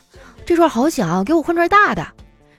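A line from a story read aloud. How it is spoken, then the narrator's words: Sharp, fussy woman ordering. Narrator (Chinese): 一个女的，特别挑剔，很尖刻的命令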